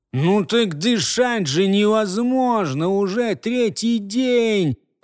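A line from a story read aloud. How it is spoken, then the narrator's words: Drawn-out complaint. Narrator (Russian): Протянул опять первый голос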